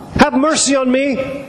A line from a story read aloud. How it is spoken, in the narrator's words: cried